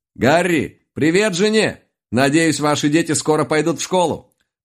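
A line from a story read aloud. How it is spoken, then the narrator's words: Shouted after someone. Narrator (Russian): Крикнул вслед ему лис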